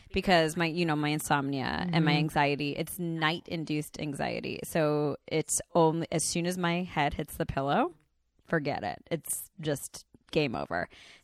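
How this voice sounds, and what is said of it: Congested voice. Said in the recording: “I'm still congested, and hopefully I don't lose my voice”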